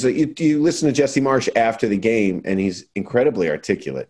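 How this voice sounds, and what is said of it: Usual voice. Nothing is said of it.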